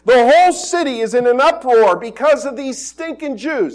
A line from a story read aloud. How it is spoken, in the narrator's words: And they shouted to the authorities